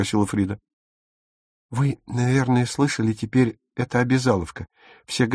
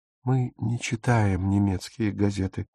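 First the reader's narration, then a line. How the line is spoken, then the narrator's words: Quiet. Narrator (Russian): тихо сказала Фрида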